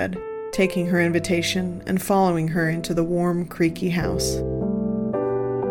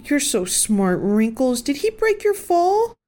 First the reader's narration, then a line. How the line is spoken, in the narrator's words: Gwen cooed